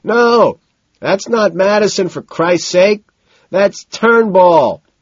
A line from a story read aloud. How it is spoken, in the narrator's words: he shouts decisively